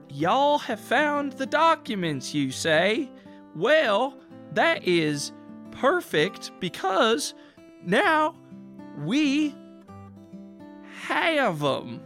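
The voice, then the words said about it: Put-on accent. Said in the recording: “That is quite the accent you have there.”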